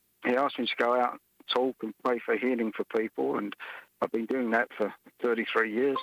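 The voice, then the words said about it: Australian-accented English. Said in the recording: “that's not a Brobridge accent. That's not from South Louisiana. ... I'm from Australia”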